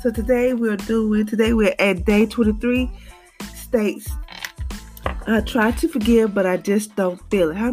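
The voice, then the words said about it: Low, weak unwell voice. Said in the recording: “Please excuse my voice because it's kind of, you know, kind of low today.”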